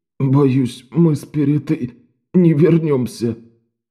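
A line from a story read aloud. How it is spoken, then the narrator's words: Hoarse rasp. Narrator (Russian): прохрипел он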